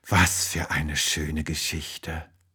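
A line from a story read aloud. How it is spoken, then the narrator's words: Sleepy murmur. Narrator (German): murmelt sie und fällt schon in tiefen Schlaf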